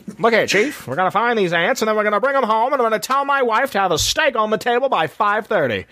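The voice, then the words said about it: Put-on transatlantic accent. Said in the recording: “I love the transatlantic accent.”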